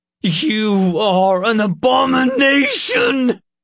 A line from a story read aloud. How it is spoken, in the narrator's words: He screeched